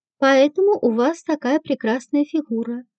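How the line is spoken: Velvety, softly smiling voice. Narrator (Russian): бархатным голосом сказал Дронго, продолжая мягко улыбаться

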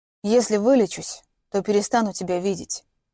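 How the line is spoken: Quietly. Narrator (Russian): негромко произнес Радик

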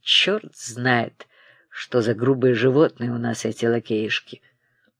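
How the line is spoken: Muttering to himself. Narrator (Russian): бормотал он про себя

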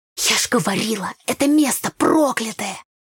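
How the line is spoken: Ominous whisper. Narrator (Russian): прошептала зловеще Таня

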